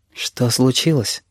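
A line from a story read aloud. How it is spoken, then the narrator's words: Very soft question. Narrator (Russian): спрашиваю я, так мягко, что сам пугаюсь своего голоса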